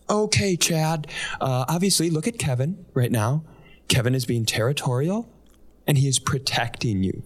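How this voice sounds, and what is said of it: Imitates another person's voice. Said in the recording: “here's my impression.”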